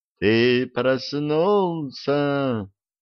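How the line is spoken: Sepulchral voice, creature. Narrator (Russian): за могильным голосом произнесло существо

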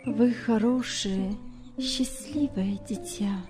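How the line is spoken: Quiet trembling voice. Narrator (Russian): сказала она тихим дрожащим голосом

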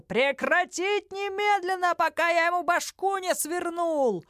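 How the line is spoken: Yelled in commander's voice. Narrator (Russian): Голосом командарма Гарик заорал

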